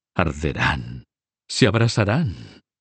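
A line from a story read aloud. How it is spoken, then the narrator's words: Panting, hoarse voice. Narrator (Spanish): dijo con voz jadeante y ronca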